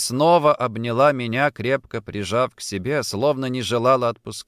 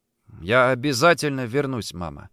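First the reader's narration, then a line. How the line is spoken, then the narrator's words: Forced out. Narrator (Russian): выдавил я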